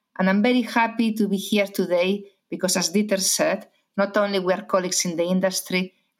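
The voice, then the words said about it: Spanish accent. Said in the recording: “I'm Spanish, as many people already realize because of my accent, from Galicia.”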